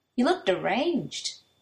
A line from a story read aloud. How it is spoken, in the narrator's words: Shindo says kindly